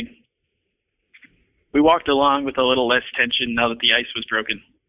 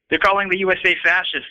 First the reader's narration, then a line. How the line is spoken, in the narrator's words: I said to him angrily